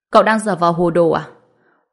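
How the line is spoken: Young woman, cold. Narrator (Vietnamese): Cô gái lạnh lùng nói

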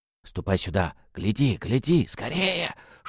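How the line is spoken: Whispered babbling. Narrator (Russian): шепотом лепетала Апроня

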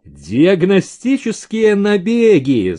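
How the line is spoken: Laughing. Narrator (Russian): засмеялся Максимов

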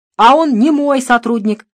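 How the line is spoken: Shouting. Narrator (Russian): закричал Дронго

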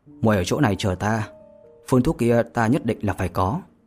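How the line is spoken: Smiling speech. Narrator (Vietnamese): Vô Lâm mỉm cười nói

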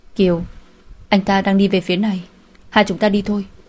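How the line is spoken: Quiet warning. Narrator (Vietnamese): Điềm Á Hiên lại khều khều tay cô, nói nhỏ giọng cảnh cáo

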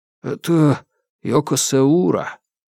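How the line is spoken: Quiet, embarrassed. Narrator (Russian): один из них тихо и словно смущенно сказал

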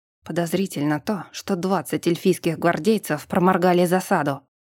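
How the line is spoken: Growled. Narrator (Russian): рыкнул Брент

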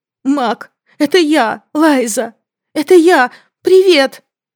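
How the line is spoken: Shout then shaky embarrassed mumble. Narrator (Russian): Сначала закричала она и тут же перешла на смущенное бормотание, чувствуя, как дрожат колени, руки, дрожит все

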